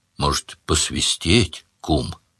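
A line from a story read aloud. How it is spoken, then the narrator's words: Quiet question. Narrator (Russian): тощий тихо спросил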